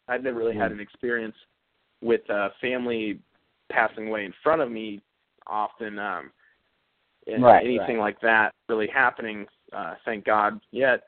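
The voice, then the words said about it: Slightly hoarse, failing voice. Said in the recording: “I'm losing my voice a little bit”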